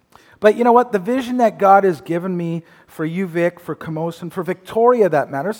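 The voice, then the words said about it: Slightly raspy voice. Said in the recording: “I had a cold earlier this week, and my voice is still a little bit raspy.”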